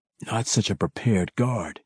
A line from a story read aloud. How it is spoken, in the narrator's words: he whispered in silent sarcasm